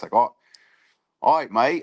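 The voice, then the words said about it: Put-on Australian accent. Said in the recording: “like an Aussie accent”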